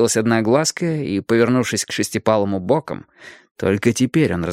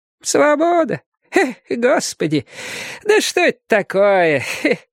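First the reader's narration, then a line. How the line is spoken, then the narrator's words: Asking while laughing. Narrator (Russian): спрашивала одноглазка и смеялась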